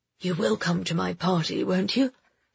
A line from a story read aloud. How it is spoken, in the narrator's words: he whispered